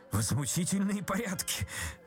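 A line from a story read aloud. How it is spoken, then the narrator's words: Cowardly mumbling. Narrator (Russian): трусливо забормотал Ипполит Матвеевич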